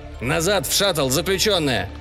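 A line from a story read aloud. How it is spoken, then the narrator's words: Barked. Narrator (Russian): рявкнул голос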